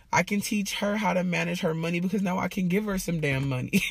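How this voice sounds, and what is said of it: Emotional, tearful voice. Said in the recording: “y'all know I be getting emotional. ... I need to be crying. ... these are tears of joy”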